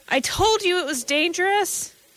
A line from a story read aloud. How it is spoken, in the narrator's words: He was still screaming